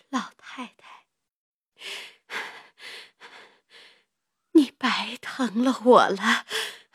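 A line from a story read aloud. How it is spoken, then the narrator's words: Weak, breathless. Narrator (Chinese): 黛玉微微睁眼，看见贾母在她旁边，便喘吁吁的说道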